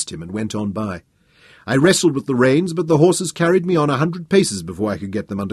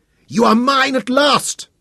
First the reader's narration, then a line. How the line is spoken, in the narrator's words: I screamed at him